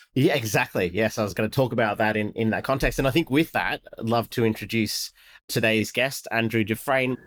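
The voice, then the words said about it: Congested, slightly funny-sounding voice. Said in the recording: “feeling a little bit congested if my voice sounds a little funny”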